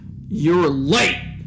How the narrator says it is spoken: yelled

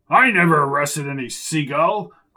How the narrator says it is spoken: grumbled Pinky

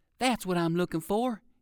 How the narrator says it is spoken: he exclaimed

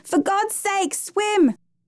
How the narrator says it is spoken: screamed

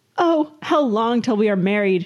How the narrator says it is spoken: she screamed

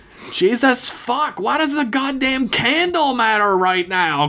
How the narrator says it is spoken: Chris screamed back, her whole body trembling in wave after wave of shock at the sight of the shambling corpse

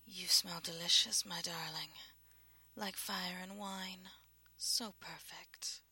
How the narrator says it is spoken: She inhaled and purred

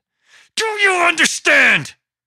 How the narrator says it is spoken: Mike yelled down at Parker, tiny flecks of saliva splattering

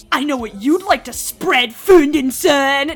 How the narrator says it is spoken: Nori spat out

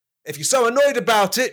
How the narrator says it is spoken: Jesus shouted back

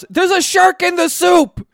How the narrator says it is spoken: Narancia shouts

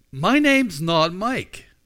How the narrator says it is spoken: he shouted back

